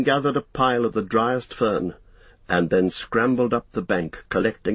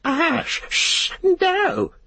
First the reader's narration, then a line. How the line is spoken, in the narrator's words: he cried